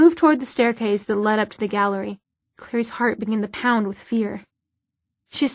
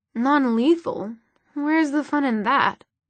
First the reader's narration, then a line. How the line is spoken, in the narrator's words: Sebastian purred